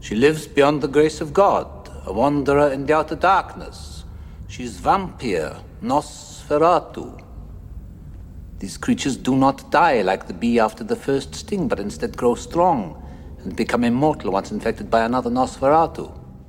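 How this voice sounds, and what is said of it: Mixed British-Dutch European accent. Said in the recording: “the accent ... maybe Welsh ... Generally British, but there's some Dutch possibly in there too ... Transylvanian”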